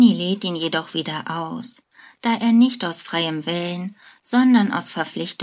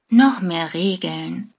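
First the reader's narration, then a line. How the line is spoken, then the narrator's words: Sighing. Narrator (German): seufzt Sheldon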